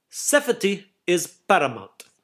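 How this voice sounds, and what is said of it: Imitated Greek-English accent. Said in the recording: “in his Greek/English accent, it sounded more like”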